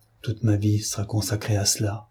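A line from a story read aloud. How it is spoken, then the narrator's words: Murmured. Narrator (French): murmura-t-elle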